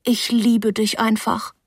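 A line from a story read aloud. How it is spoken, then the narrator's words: Plain. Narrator (German): sagte ich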